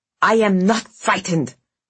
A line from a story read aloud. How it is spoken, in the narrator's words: snapped Vasya